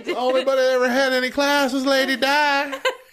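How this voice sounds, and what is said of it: Voice like an older man. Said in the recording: “You sounded like my grandmother's husband.”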